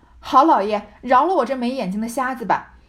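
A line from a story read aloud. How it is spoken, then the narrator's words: Hasty pained cry. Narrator (Chinese): 薛蟠忙哎呦叫道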